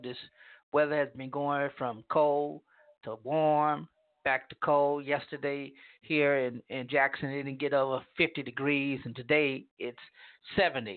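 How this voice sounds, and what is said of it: Congested, stuffy voice. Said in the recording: “I sound congested, I am ... my sinuses are they're all over the place”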